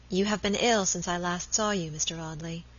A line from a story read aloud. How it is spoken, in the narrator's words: she said in a low voice that had the same melodious sadness as the notes of the old organ